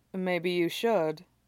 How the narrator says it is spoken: he agrees blandly

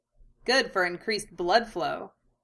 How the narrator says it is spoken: Anko leered cheerfully in her head

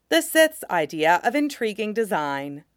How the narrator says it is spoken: Depa says dryly

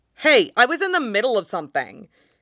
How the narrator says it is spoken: he snaps at Lan Wangji

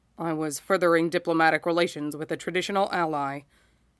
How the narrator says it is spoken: says, a touch stiffly

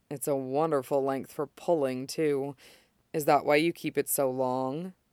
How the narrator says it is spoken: leans very close and adds in a lower voice

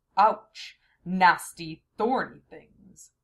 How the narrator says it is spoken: I could hear him grumble

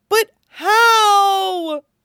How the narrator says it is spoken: Chopper wails

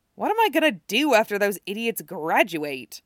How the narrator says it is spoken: He muttered

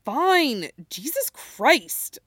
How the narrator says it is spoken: Jackson snaps

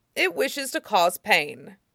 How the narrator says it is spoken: Iroh said grimly

